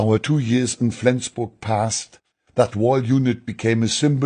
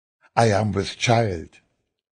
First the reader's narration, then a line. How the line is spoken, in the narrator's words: Annie said softly